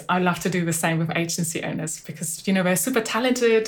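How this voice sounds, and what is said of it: Mixed German and English accent. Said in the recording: “a little German accent, a little English accent. It's a little bit going back and forth. It's hard to pin down. ... you sound like somewhere in between.”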